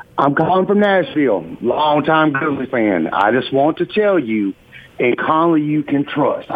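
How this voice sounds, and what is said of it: Southern US accent. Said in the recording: “you really got the South accent going on there”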